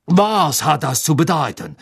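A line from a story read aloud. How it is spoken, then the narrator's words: Called out. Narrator (German): rief er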